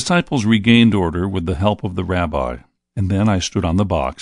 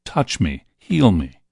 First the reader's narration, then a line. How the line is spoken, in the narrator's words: the cries